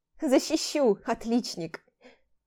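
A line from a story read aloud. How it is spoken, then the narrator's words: Tearful reproach. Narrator (Russian): Попеняла сквозь слезы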